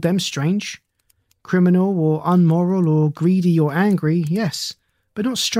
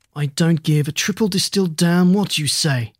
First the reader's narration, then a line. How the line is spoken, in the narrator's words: Troy snarled